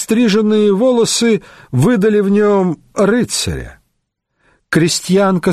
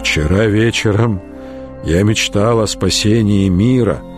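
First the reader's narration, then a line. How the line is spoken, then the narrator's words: Very soft and warm. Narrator (Russian): проговорил он очень мягко и тепло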